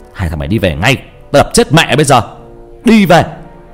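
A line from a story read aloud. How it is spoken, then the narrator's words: Very loud angry shout. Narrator (Vietnamese): hét lên to lắm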